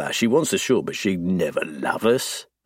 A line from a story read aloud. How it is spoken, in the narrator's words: he scoffs